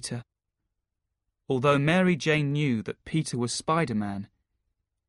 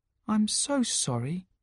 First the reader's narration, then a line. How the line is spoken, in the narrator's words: said MJ softly